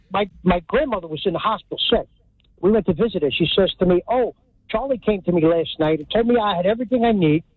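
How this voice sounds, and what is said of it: Hudson County New Jersey accent. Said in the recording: “This is a real Hudson County accent”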